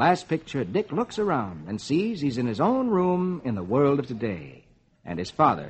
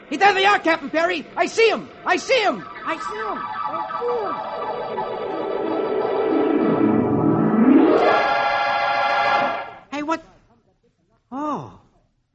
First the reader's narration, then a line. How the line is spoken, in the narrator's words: Dick, is shouting